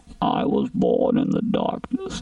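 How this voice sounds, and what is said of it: Bane impression, muffled voice. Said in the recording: “That's pretty decent, Bane. ... it's not good. ... You need to work on your accent.”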